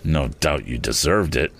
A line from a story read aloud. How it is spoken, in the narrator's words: murmured Mr